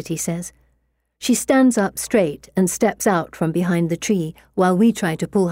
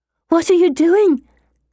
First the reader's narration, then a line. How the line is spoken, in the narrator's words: Anne says in a loud, panicked whisper